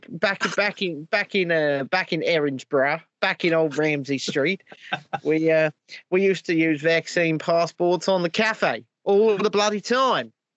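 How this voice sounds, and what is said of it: Put-on Australian accent. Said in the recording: “We have an Australian accent, right? We're going to do Mark Drake for properly.”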